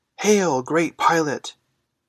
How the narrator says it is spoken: he shouted imprudently

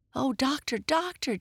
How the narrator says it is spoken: Jesse gasped

